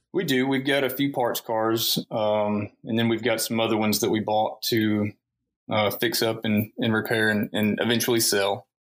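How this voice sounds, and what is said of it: Country twang accent. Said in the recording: “you have that country twang to you”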